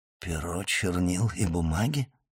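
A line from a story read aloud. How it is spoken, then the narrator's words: Muttering. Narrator (Russian): пробормотал Фернан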